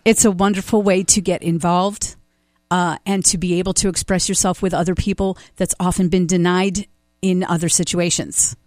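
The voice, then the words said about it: Choked-up, emotional voice. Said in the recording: “you can hear me, I'm getting choked up ... I see that you're getting emotional”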